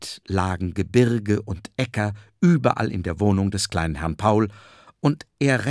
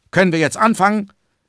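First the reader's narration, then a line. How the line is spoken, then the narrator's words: Calling out. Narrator (German): rief die Wolke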